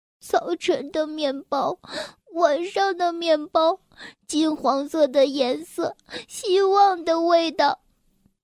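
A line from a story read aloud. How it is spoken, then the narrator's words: Pitiful, choking sob. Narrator (Chinese): 一个可怜的声音，哽咽道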